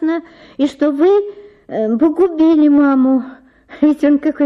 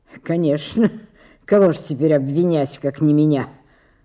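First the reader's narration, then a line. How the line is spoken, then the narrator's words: Muttering and snorting. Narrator (Russian): Бормотал он, фыркая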